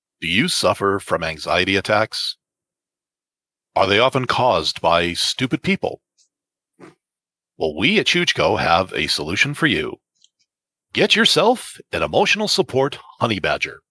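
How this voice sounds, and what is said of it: TV announcer voice. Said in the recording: “in my TV announcer voice.”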